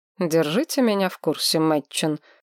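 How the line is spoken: Cold commanding, king. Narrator (Russian): холодно приказал король

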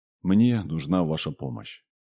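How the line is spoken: Heavy sigh, then speaking. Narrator (Russian): Лепишев тяжело вздохнул, собираясь с мыслями, и сказал

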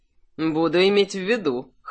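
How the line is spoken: Snorting. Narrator (Russian): хмыкнул Кирсан

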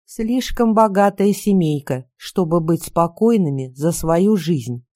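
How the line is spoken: Plain. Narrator (Russian): сказал он

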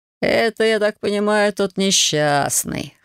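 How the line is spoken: Smirking snort. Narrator (Russian): хмыкнул парень

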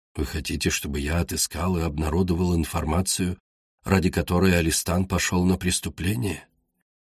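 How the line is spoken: Quiet question. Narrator (Russian): Тихо спросил Игрис

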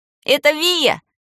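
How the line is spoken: Joyful squeal. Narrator (Russian): Взвизгнул радостно

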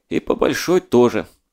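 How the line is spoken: Sighing. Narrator (Russian): вздохнул Геттель

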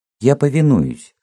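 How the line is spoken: Plain. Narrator (Russian): сказал Цвет

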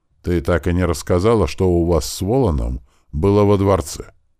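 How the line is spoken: Gentle reproach. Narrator (Russian): Мягко укорил

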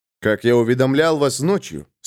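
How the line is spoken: Dry reply. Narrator (Russian): сухо ответил Джоакин

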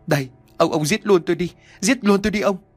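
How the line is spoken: Woman wailing tearfully. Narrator (Vietnamese): Bà Hiền tiếp tục khóc lóc

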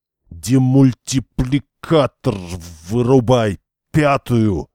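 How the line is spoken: Strained, near fainting. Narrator (Russian): выдавил из себя Берестин, понимая, что вот-вот потеряет сознание

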